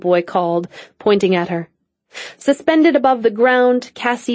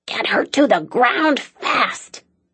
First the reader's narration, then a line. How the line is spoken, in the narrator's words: Daisy hiss